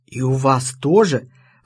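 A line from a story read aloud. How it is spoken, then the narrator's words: Joyful breathy exclamation. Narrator (Russian): радостно выдохнула Рута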